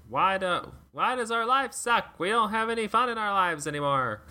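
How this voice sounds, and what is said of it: Billy Crystal impression. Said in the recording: “my Billy Crystal impression ... that impression just turns into like Jerry Seinfeld”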